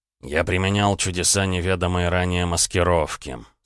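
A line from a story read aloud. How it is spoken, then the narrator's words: Through gritted teeth. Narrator (Russian): сквозь зубы процедил Роман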